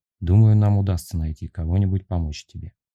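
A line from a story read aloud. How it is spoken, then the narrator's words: Calm. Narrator (Russian): Я спокойно сказал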